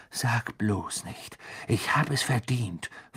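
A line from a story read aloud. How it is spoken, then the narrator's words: Angry hiss. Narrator (German): fauchte Ron sie an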